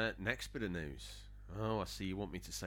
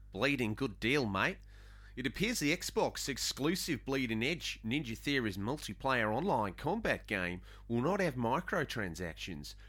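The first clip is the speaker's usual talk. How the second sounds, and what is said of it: Put-on Australian accent. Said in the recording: “say this in Australian accent, so we'll give it my best shot”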